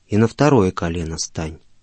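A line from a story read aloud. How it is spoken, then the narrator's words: Calm but firm. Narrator (Russian): он спокойно, но твердо сказал ему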